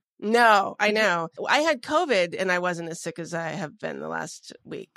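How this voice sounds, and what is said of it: Sick, congested-sounding voice. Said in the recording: “You sound sick. ... this is actually sick. Like diseased.”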